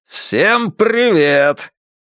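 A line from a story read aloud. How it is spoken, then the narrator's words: Full-throated roar through megaphone. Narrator (Russian): Он поднес к рту мегафон и проревел во всю глотку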